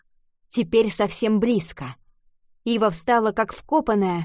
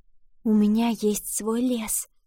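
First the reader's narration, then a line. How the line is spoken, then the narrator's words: Whisper. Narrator (Russian): прошептала она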